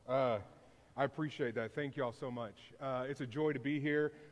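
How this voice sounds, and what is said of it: Hoarse, worn-out voice. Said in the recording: “I'm already tired and my voice is gone”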